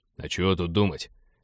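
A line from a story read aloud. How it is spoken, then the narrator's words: Grumbling. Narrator (Russian): проворчал командир абордажников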